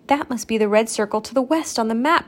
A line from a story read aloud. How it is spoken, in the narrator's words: Stacy exclaimed